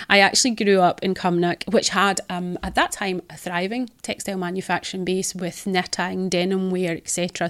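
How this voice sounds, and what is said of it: Scottish East Ayrshire accent. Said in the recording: “you're my first Scottish podcast guest ... trying to understand the East Ayrshire accent”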